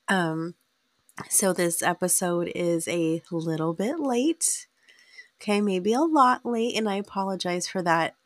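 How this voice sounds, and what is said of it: Sick-sounding voice. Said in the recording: “If you can hear it in my voice, I do apologize. I have been sick.”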